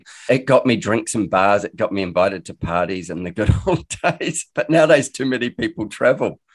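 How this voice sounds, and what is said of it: New Zealand accent, slightly Australian-blended. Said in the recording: “I'm a Kiwi, but I live in Australia, so mine's a bit blended, but still pretty Kiwi. Like locals here tell me I'm very much a Kiwi”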